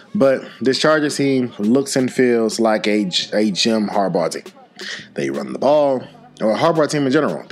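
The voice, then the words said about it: Voice sounds weird from illness. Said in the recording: “Been dealing with a sickness ... my voice sounds a little weird from what you're used to hearing.”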